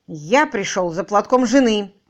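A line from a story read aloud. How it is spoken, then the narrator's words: Gloomy, very loud. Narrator (Russian): хмуро, но очень громко сообщил Тим Мэдисон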